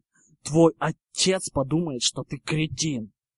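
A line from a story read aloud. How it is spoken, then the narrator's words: Hissed. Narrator (Russian): зашипел Гарри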